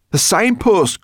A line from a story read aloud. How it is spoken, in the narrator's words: cried Sorrel